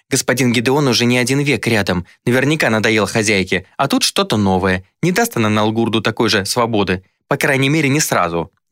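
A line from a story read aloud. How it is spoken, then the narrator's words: Shrill, insistent. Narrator (Russian): не сдавалась визгливая Инга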